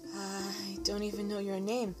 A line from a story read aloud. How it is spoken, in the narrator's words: Dennis Gula panted stupidly